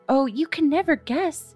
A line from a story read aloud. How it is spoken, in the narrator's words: she cried